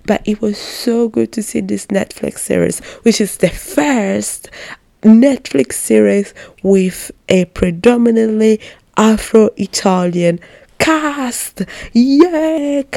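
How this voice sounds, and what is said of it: Excited, enthusiastic speech. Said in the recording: “Can you hear the excitement in my voice?”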